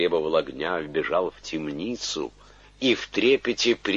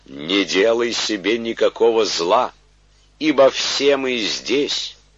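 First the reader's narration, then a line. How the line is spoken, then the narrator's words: Loud proclamation. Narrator (Russian): Павел возгласил громким голосом, говоря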